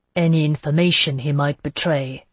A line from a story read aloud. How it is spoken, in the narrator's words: Delaunay said grimly